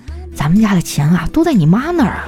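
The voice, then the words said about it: Quiet, hushed reply. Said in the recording (Chinese): “小声的回了一句”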